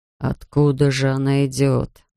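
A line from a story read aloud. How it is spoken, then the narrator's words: Muttering. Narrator (Russian): бормотал Бирн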